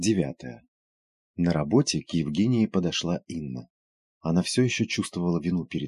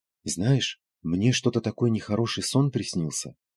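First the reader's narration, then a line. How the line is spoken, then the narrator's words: Hesitant woman. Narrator (Russian): неуверенно начала Инна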